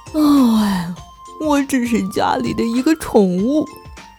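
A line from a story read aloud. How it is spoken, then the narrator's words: Sighing. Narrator (Chinese): 莫卡叹了口气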